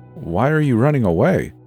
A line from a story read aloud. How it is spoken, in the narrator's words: I asked